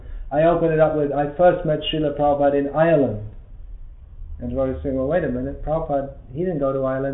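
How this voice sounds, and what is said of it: Mixed, not quite British accent. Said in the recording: “your accent doesn't sound British so much ... so it's kind of a mixture now ... It's a real mixture. People can't work out where I'm from.”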